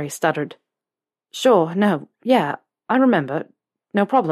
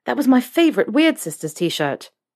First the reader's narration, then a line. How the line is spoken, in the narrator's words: Harry blurted out